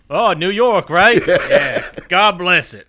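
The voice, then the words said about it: Old Brooklyn-Southern prospector accent. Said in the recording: “What kind of accent was that? ... Like an old prospector? ... alternate reality New York ... a guy who grew up in Brooklyn then moved to Tennessee when he was 50. That's the accent that came together. Now he's 70.”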